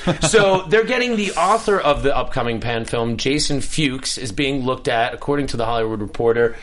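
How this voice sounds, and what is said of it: Usual voice. Nothing is said of it.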